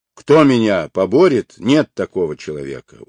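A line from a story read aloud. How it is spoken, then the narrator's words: Shouting. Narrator (Russian): крикнул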